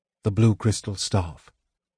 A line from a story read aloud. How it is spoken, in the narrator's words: he said quietly